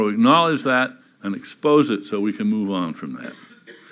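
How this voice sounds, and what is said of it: Usual voice. Nothing is said of it.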